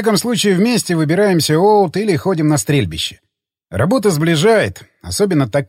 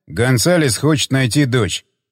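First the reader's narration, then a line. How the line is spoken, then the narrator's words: Plain. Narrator (Russian): ответил Джефф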